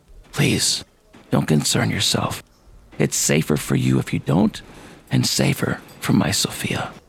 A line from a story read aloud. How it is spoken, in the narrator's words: whispered in my ear